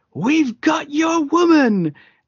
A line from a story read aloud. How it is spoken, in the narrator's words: he yells